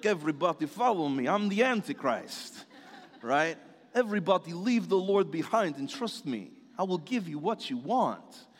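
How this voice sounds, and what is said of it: Exaggerated Eastern European accent. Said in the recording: “He comes from Eastern Europe, and he probably has a weird, crazy accent.”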